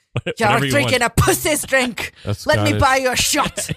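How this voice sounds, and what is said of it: Put-on Scottish or Irish drunk accent. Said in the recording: “That's Scottish. ... Irish accent. ... That's my drunk accent.”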